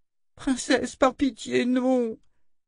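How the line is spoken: Trembling moan, pain and fear. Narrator (French): gémit Rachel, tremblant de douleur et de peur

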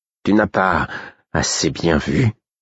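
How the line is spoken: Sour tone. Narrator (French): demanda le fou d'un ton aigre

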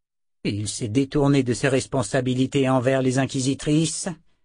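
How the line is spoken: Disapproving growl. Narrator (French): grogna Zed, désapprobateur

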